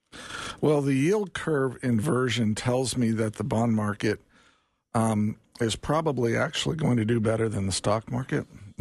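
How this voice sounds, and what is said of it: Slightly raspy strained voice. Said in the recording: “My voice is a little raspy this morning, and I'm having a hard time getting it all out.”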